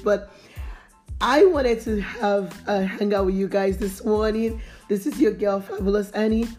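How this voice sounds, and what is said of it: Voice affected by a cold. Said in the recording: “I have a cold this morning, so my voice is”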